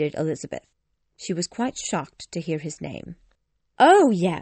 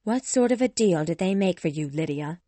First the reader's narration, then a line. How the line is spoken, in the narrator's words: asked Elizabeth coldly